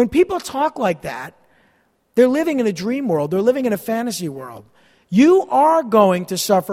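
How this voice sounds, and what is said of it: Usual voice. Nothing is said of it.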